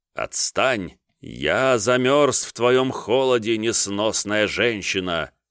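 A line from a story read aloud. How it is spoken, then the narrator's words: Mock tearful trembling. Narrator (Russian): затрясся, как бы в слезах отринутого любовника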